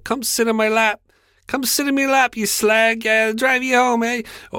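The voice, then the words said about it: Poorly done put-on accent. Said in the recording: “I'm fucking terrible at accents.”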